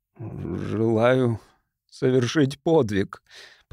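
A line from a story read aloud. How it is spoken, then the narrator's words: Mumbling while smoking. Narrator (Russian): промямлил, делая новую затяжку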